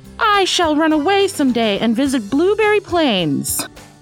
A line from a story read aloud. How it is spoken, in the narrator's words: shouted